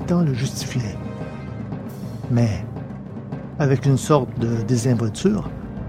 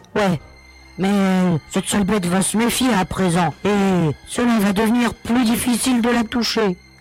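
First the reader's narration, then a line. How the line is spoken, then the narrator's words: Grumble. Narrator (French): grommela l'ex-capitaine du Zulgar 19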